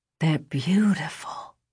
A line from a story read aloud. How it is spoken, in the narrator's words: she whispered